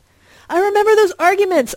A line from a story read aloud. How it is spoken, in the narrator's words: I shouted excitedly